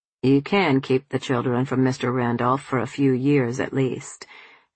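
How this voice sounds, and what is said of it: Cool, flat Boston accent. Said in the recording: “his cool, flat Boston accent”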